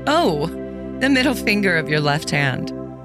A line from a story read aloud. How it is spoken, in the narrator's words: the maiden answered, laughing